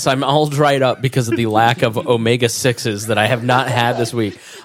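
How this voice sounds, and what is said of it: Weird-sounding voice, getting over cold. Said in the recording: “my voice sounds weird. I'm getting over a cold.”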